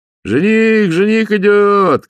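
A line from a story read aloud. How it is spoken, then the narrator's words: Shouting. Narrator (Russian): кричали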